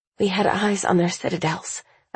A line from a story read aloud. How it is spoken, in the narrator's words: I mutter, speaking to keep myself focused